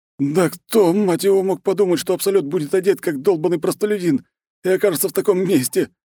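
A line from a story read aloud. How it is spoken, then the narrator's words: Yelling, losing control. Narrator (Russian): не выдержала психика Эрика, и парень заорал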